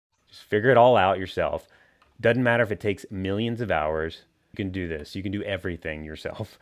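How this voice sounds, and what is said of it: Sarcastic delivery. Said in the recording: “we're being sarcastic, by the way.”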